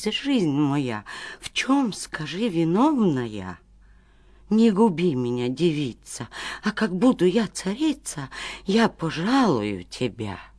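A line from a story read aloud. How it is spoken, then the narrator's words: Terrified pleading. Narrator (Russian): царевна догадалась и до смерти испугалась и взмолилась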